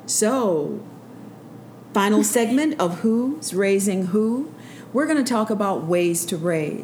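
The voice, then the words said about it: Smooth radio announcer voice. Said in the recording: “You know, like that radio voice? ... That's how you sound.”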